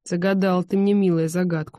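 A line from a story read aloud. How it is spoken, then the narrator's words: Wry grunt. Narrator (Russian): хмыкнул он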